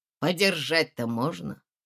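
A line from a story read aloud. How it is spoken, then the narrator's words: Pleading, cautious repetition. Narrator (Russian): просительно повторил человек осторожным голосом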